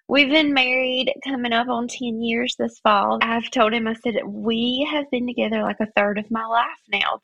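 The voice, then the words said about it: Southern US accent. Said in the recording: “If you couldn't tell from my accent, I'm from the South”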